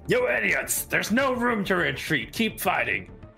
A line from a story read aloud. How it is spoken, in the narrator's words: will yell at the spearmen